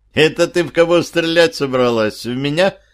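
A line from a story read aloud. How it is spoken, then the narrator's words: Smirking question. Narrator (Russian): хмыкнул, спросил я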